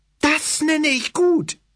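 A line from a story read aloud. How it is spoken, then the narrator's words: Near shout. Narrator (German): schrie fast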